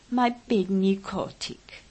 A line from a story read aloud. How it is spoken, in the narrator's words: would laugh and say